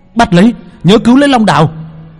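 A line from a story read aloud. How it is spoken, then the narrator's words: Shout. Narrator (Vietnamese): Hắn hét lên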